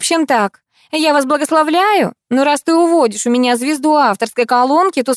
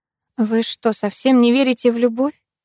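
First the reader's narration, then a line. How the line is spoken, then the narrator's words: Quiet question. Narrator (Russian): Тихо спросила я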